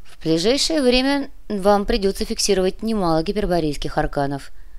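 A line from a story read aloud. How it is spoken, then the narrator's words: Calm. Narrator (Russian): спокойно произнес Сантьяго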